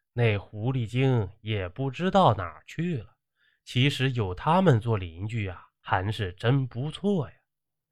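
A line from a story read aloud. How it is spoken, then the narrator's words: Long sigh. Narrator (Chinese): 长叹一口气，说道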